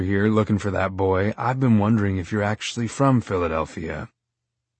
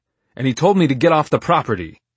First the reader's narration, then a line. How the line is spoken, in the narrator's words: I shouted